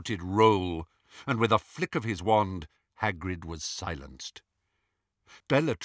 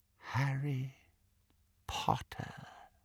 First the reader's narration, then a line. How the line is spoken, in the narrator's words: he said, very softly